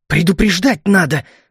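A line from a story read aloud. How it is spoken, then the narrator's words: Angry hiss. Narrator (Russian): зло прошипел я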